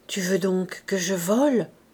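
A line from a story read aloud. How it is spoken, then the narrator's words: Low muffled murmur. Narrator (French): murmura-t-elle d'une voix sourde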